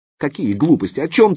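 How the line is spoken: Shout. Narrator (Russian): закричала Оксана

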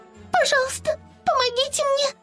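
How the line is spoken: Squeaking. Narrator (Russian): пропищала Ливи

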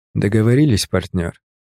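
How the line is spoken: Quiet but audible. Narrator (Russian): сказал я ему прямо в ухо, тихо, но так, чтобы слышали его матросы

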